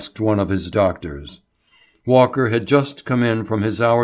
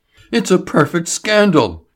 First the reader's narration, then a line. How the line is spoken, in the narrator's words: he cried